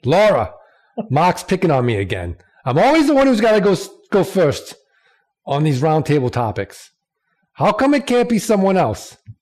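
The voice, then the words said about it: Poor put-on regional accent. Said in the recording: “accent? And again, I want to apologize to the entire state. ... I think your accent's getting worse. I thought it was getting better, but there was a little bit of a down there.”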